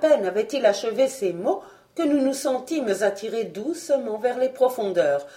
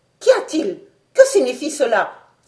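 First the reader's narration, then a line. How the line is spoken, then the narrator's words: Exclaiming. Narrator (French): s'écria le docteur Oméga en se précipitant au hublot d'avant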